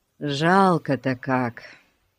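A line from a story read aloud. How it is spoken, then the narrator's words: Sighing. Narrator (Russian): вздохнул Ларри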